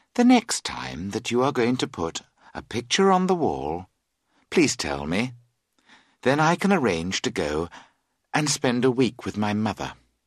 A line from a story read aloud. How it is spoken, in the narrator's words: She added calmly